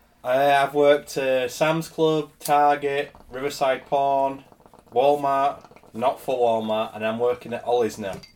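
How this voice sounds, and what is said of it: Speaks with a noticeable regional accent. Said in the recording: “because of your accent, I thought you were saying Riverside Porn”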